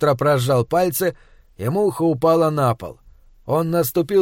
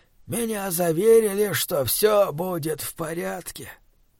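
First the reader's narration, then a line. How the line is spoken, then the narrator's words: Muttered. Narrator (Russian): пробормотал Варнер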